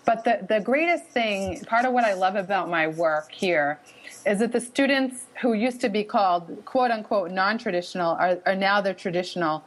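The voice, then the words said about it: Boston accent. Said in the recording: “maybe you can pick up on my wicked accent a little bit here”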